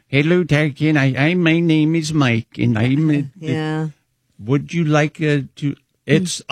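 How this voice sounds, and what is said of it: Imitates a hard-to-understand accent. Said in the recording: “there's an accent you're dealing with ... I can't understand him”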